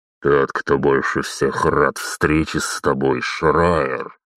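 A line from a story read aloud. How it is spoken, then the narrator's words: Frightening voice. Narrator (Russian): проговорил зеркальная маска страшным голосом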